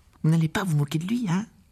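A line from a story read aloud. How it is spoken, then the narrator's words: Worried tone. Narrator (French): ajouta-t-elle d'un ton inquiet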